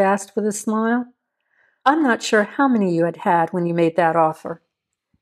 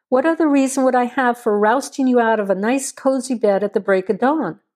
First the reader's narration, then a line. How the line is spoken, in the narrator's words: Cho asked with a laugh